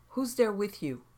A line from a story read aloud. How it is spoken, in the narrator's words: My voice came out shaky